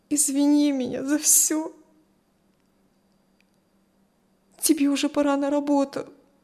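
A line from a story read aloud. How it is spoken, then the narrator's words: Tearful, strained. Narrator (Russian): Все еще сквозь слезы выдавила Кристи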